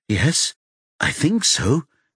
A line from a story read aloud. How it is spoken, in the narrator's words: she says anxiously